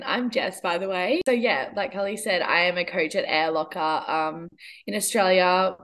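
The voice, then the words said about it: Australian accent. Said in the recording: “something super Australian ... I hope you enjoy the accent.”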